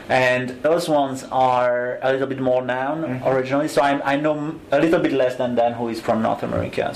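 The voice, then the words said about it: European accent. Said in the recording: “I'm from Europe, as you can hear with my accent.”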